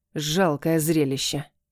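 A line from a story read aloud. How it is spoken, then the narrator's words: Through gritted teeth. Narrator (Russian): процедила женщина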